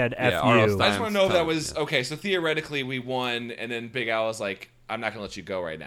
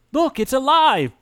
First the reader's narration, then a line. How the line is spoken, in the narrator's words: Brad shouts